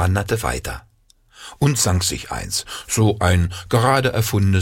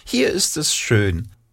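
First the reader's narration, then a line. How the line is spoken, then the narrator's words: Squeaky voice. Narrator (German): piepste sie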